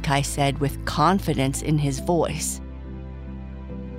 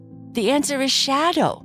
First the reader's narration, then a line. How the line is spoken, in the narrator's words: Boo Boo exclaimed